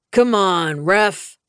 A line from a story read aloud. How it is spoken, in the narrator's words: Wraith yelled